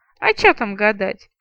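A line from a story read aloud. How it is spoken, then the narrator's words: Fat woman's chuckle. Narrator (Russian): хохотнула толстуха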